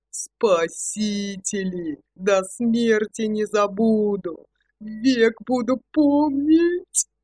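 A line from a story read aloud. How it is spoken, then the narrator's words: Voice breaking into sob. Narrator (Russian): Голос его сорвался, и из горла вырвалось рыдание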